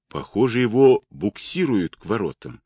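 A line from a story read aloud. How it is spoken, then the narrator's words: Plain. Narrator (Russian): сказала Мэг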